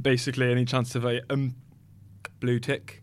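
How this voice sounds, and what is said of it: Imitates another person's voice. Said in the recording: “great impression of Simo”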